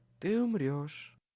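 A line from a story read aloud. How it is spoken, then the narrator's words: Sweet purr. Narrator (Russian): Сладко промурлыкала Лидия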